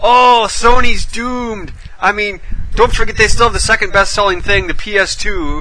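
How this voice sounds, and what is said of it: Mock alarmist teenage fanboy voice. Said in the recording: “I'm just trying to do my impression of a fanboy alarmist who's like 18 years old”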